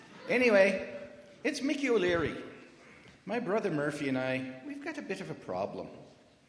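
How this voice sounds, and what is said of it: Put-on Irish accent. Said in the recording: “God would probably have a good Irish accent too”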